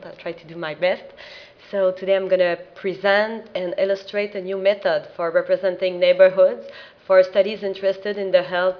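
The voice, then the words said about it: Non-native accented English. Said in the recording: “I'm sorry for my accent.”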